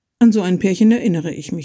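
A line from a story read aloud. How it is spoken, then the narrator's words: Plain. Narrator (German): sagte sie dann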